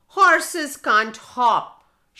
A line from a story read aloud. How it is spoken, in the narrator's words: shouted the horse